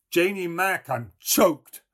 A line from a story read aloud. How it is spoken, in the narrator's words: he howled without looking up from the fire